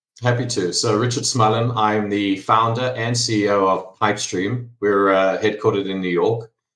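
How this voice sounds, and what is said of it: South African accent. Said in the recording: “I am South African, if you're all trying to place the accent”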